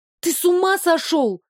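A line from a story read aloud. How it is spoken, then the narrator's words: Panicked shout. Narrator (Russian): закричала я, ощущая, как сердце оказалось где-то в горле и там же бешено стучало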